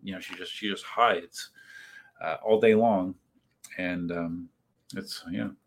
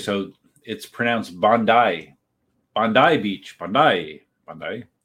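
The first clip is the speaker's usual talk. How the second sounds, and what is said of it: Put-on Australian accent. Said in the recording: “With my Australian accent, which is very polished.”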